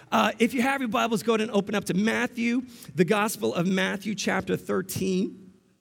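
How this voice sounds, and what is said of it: Strained voice, losing it. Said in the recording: “Pardon my voice, it's going already. I was belting out the song.”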